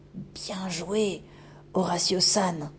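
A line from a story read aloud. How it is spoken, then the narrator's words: Whispered. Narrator (French): chuchota-t-elle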